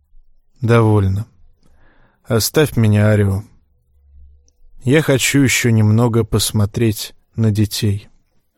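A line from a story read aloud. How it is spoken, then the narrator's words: Sighing. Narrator (Russian): Вздохнул и сказал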